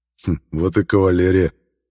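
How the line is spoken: Amused grunt. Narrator (Russian): хмыкнул я

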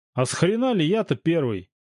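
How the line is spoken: Dissatisfied yell. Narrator (Russian): неудовлетворенно завопил Володька

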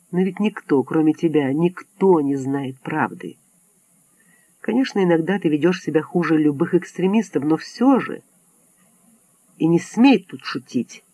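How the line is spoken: Smiling whisper. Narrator (Russian): Нелли улыбнулась и прошептала

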